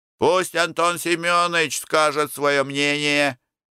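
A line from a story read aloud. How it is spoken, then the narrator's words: Shouted from a crowd. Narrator (Russian): крикнули из толпы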